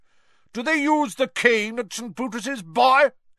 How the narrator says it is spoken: She barked across the table

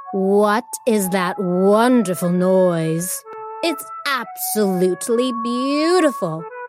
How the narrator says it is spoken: purred

